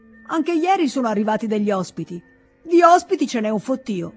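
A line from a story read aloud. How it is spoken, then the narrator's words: Peasant shouting. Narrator (Italian): il contadino si mise a gridare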